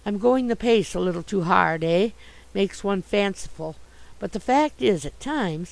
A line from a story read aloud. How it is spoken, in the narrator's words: he spoke gravely again